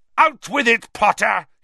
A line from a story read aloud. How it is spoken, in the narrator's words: he bellowed